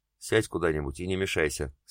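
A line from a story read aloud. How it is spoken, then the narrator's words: Dry. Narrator (Russian): сухо проговорила Марина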